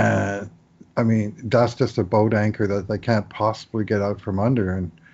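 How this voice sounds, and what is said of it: Usual voice. Nothing is said of it.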